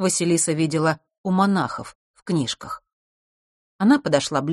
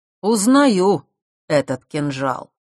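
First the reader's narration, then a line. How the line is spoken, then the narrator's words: Loud. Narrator (Russian): громко сказал мужчина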